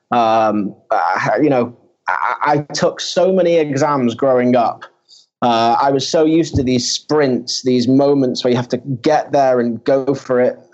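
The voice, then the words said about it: Manchester English accent. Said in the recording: “I don't have the strongest Middle Eastern accent. I'm actually from uh, Manchester in the UK.”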